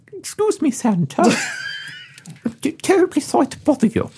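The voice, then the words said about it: Chipmunk-like voice, put-on Danish accent. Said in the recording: “his peculiar Danish chipmunk-like accent ... Danish chipmunk. Make it good.”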